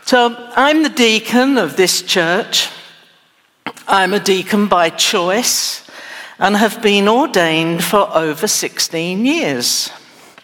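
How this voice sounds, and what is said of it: English accent. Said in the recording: “I'm not a native Texan, but I was born in England. ... I just haven't got the accent right yet.”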